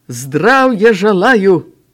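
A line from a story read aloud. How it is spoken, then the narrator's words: Barked. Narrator (Belarusian): Упаўнаважаны гаркнуў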